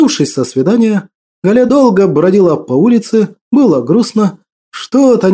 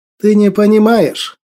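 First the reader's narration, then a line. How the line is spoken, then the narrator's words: Cold objection. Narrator (Russian): холодно возразил Ариман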